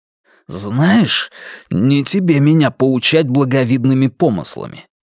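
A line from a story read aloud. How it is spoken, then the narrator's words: Hiss. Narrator (Russian): прошипел Вивьен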